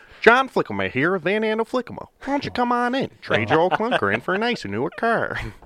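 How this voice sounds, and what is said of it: Nasal West Michigan accent impression. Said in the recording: “we're pretty nasally... Like, the West Michigan accent... this is like what it sounds like... That was pretty good... that is exactly like a Midwestern accent for sure”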